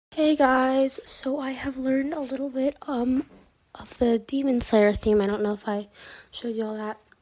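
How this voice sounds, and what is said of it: Raspy voice. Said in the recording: “My voice is pretty raspy today”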